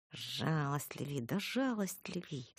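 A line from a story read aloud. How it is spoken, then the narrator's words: Hissed through teeth. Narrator (Russian): сквозь зубы шипела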